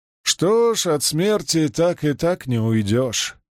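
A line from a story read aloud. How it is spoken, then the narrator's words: Sigh. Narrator (Russian): вздохнул Ноэл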